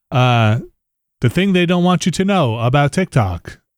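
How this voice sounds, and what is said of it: Robotic put-on voice. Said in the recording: “That's my robot voice... OG robot voice.”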